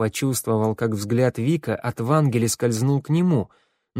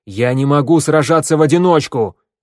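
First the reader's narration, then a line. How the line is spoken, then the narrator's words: Barked. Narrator (Russian): рявкнул Вик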